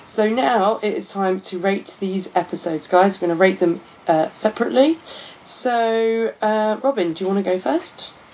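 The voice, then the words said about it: Hoarse, worn-out voice. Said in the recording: “My voice is still shot from partying at Pride yesterday.”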